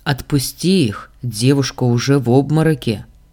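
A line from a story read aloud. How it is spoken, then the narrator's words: Calm advice. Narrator (Russian): спокойно посоветовал Заран брату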